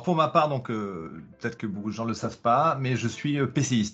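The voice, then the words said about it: Speaks with a noticeable accent. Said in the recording (French): “Désolé, pour mon accent d'ailleurs.”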